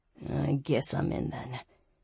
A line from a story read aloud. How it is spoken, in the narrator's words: he muttered